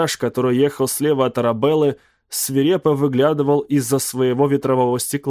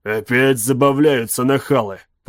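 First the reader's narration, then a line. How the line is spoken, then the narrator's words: Grumbled. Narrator (Russian): пробурчал он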